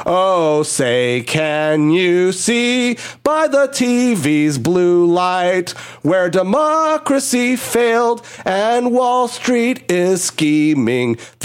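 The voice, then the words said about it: Raspy singing voice. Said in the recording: “may I sing it a little bit with my raspy voice”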